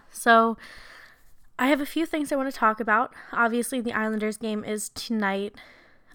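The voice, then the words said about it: Hoarse, failing voice. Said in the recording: “As you can hear, maybe I'm kind of losing my voice again”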